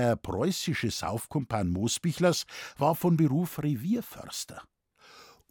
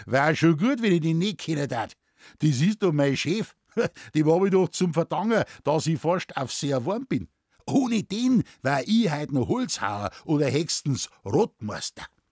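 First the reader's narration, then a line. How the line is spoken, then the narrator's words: Laughing speech. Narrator (German): Der Muckel lachte und sagte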